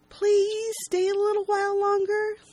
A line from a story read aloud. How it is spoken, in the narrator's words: Lacey pleads